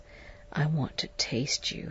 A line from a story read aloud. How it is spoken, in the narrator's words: he whispered